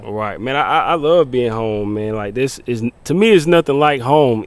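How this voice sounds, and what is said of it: Country Southern US accent. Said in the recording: “we can tell you're not from here because you sound so country... I'm from Jonesville, South Carolina”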